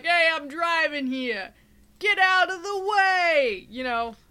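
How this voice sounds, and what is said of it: Put-on New York accent. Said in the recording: “they all had the same accent ... well, they are in New York”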